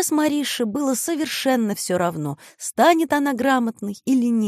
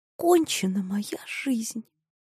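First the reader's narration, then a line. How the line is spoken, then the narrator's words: Whisper. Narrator (Russian): опять шепнула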